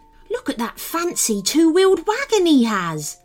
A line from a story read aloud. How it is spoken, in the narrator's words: the gnome exclaimed